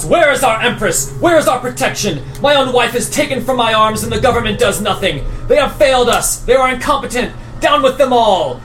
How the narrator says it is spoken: one of the men in the crowd, he shouts

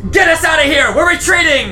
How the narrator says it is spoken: yell down the hall as she says

